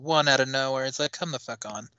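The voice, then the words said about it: Strong New Jersey / New York accent. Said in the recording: “You said that with a real Jersey, New Yorkish accent that time.”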